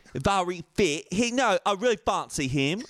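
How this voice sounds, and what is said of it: Put-on British accent. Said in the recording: “British. I love ... British accent. It's so solid... Your British is just so good... It's just harsh. It's great.”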